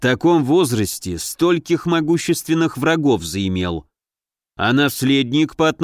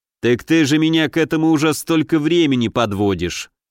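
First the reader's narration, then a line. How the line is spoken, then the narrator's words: Snort. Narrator (Russian): хмыкнул Елецкий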